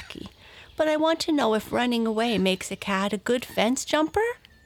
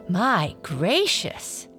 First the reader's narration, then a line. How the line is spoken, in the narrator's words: exclaimed Blackie